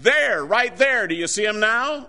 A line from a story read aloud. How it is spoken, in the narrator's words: he shouted